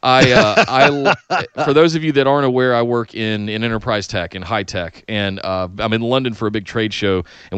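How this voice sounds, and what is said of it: Worn-out, tired voice. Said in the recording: “I'm exhausted ... My voice is gone. I'm tired”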